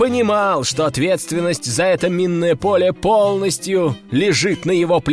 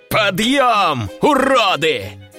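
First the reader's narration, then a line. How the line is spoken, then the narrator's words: Roaring. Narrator (Russian): взревел Батуркин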